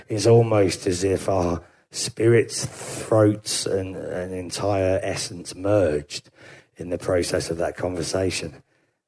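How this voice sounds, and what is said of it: Imitates an English folk singer's voice. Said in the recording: “I sound exactly like the English country folk singer Beans on Toast ... good Beans on Toast impression”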